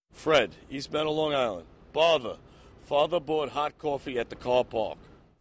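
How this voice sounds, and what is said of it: R-less traditional New York accent. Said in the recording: “something interesting he's doing at the end with his vowels before R and car and park. But he has the traditional features. So he's got the R-lessness that he's dropping. He's got the distinction between hot and coffee”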